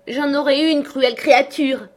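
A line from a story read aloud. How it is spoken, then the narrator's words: Shouted. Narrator (French): cria-t-elle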